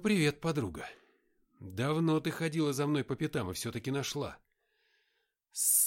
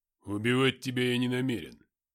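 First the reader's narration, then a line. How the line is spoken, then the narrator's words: Calm but rough voice. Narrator (Russian): ответил боец в маск-халате спокойным, но грубым голосом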